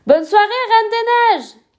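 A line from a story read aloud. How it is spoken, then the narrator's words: Shouting while leaving. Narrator (French): crie Cléo en partant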